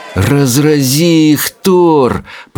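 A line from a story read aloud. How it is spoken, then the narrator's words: Moaning. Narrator (Russian): простонал Рыбьенок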